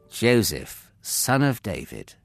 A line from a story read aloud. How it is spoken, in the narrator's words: the angel said gently